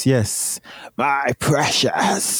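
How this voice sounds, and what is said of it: Bad Gollum impression. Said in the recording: “It was a bad Gollum... bad impersonation of Smeagol Gollum”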